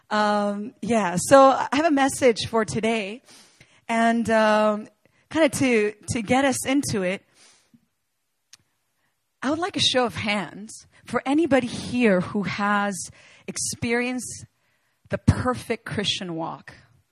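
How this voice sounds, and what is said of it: Hoarse, gravelly voice. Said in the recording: “I sound a bit like the Godfather right now. I kind of lost my voice.”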